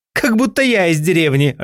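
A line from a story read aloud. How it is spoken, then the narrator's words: Laughing. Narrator (Russian): рассмеялась Мари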